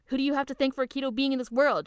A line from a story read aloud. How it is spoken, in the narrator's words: She screams